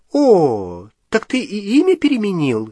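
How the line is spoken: Cheerful. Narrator (Russian): весело спросила она

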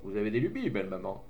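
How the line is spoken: Cheerful man. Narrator (French): dit l'homme gaiement

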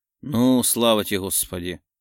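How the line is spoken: Grumbled. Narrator (Russian): пробурчал

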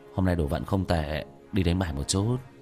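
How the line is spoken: Surprised mutter. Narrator (Vietnamese): Vương Quân Diệt kinh ngạc lẩm bẩm

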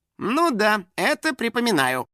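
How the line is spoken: Indifferent snort, house spirit. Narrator (Russian): с равнодушным видом хмыкнул домовой

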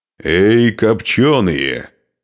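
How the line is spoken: Roaring in Slavic. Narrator (Russian): взревел Нурман по-славянски

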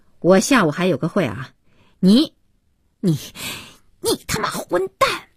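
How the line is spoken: Furious outburst. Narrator (Chinese): 不知如何发泄怒火，边说

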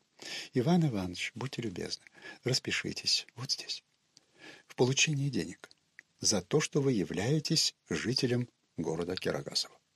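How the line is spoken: Sweet angelic voice. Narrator (Russian): нарочный самым нежнейшим ангельским голосом говорит

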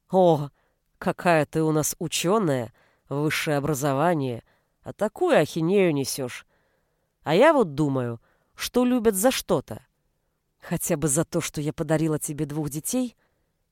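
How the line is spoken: Reluctant, through gritted teeth. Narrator (Russian): нехотя процедила Анита

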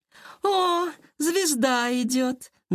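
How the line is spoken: Mocking drawl. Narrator (Russian): насмешливо протянула Лера

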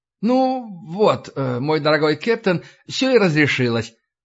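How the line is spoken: Beaming exclamation. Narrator (Russian): воскликнул О'Кив, сияя улыбкой

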